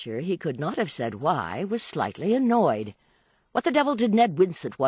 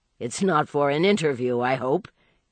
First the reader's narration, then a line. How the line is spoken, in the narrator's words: he laughed